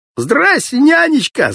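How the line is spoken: Loud yell. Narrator (Russian): заорал Володька

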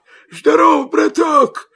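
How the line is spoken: Hoarse wolf. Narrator (Russian): хрипит волк

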